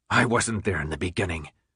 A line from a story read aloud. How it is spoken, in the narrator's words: Jansen said in a level voice